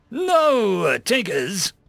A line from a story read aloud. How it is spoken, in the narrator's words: the instructor called out